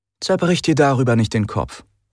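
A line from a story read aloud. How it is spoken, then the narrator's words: Plain. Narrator (German): sagte Cassandra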